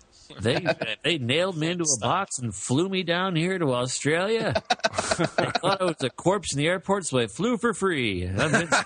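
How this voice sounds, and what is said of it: Vin Scully doing an Australian accent. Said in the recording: “Vin Scully trying to introduce everybody with an Australian accent”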